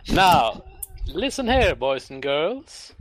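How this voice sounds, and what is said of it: Shifting posh put-on accent. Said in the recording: “My smart vest may tell you that I'm a posh gentleman, but as my shifting accents will tell you”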